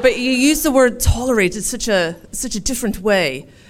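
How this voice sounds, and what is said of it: Put-on English accent. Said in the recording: “forgive my English accent.”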